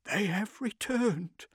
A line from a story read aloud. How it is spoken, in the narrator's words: one old woman was murmuring